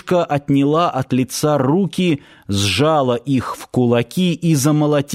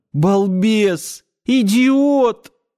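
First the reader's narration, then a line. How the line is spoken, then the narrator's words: Sobbing harder. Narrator (Russian): пуще прежнего зарыдала Надя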